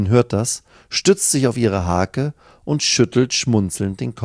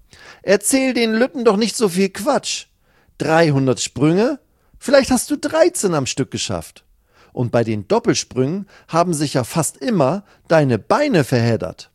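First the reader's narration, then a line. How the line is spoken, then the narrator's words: Calling across. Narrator (German): ruft sie rüber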